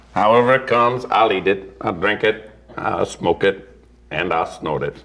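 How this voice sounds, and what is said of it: Morgan Freeman impression. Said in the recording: “Do you do his voice? ... Just read him. Morgan Freeman saying this. ... I was suddenly felt like we were in a prison cell. It was so real.”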